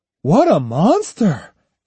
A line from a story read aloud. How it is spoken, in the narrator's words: exclaimed one